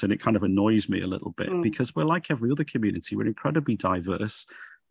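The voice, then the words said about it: Liverpool accent. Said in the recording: “you probably gather from my accent, I come from Liverpool”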